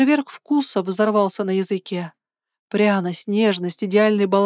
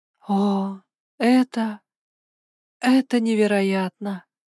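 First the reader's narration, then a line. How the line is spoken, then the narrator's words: Breathless disbelief. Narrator (Russian): выдохнула я, сама не веря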